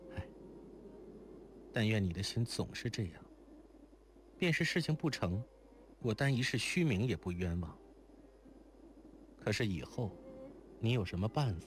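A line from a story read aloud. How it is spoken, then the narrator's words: Sighing. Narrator (Chinese): 如莲叹息道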